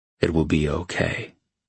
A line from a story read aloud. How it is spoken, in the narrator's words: he said softly